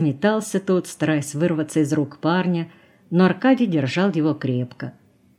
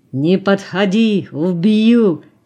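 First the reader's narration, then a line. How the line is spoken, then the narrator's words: Drunken roar. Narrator (Russian): снова взревел пьяный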